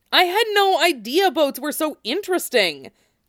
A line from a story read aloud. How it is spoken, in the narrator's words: Cloud exclaimed